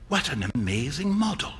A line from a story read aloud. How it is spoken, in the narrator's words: whispered Hughie